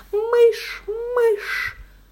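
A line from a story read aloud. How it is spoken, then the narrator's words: Hysterical shriek. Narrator (Russian): Зараженная моей истерией, Мэри тоже завизжала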